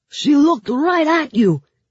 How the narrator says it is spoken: shouted Mikhail

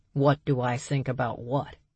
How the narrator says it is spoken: Berg asked

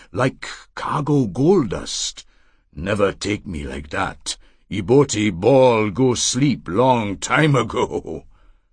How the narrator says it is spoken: she said in her strong contralto voice

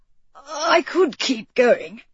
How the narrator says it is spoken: he wheezed

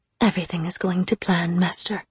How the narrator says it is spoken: she said in a low murmur

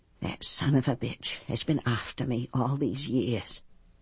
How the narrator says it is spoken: she whispered

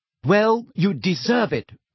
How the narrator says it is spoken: she snapped

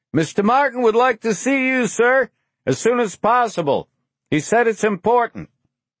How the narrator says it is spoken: the man shouted

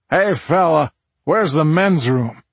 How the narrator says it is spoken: the commanding voice of James Earl Jones piped through the sound system

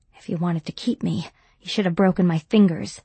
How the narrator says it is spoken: I murmured

